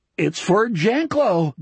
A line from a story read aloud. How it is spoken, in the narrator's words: Donnie Keegan gurgled